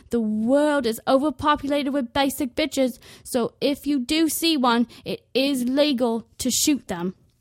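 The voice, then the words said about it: Poor imitation of an Australian accent. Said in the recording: “my horribly awful impression of Steve Irwin ... That's not how us Aussies sound ... I'm very, very bad at accents”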